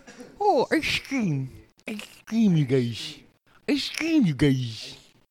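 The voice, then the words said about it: Put-on Portuguese accent. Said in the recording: “That's like a very Portuguese fucking accent, eh?”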